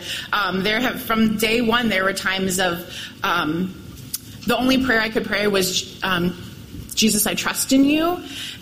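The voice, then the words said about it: Cracking, tearful voice. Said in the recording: “my voice is already cracked. I already have tears in my eyes.”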